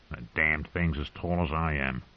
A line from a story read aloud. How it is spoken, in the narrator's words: Tyrion muttered in a low voice